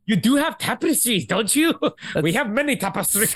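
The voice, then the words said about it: Imitated Scottish-accented movie voice. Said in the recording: “his accent was like... Scottish Arnold Schwarzenegger.”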